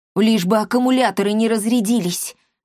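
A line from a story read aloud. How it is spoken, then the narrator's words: Anxious breathy exclamation. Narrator (Russian): взволнованно выдохнул он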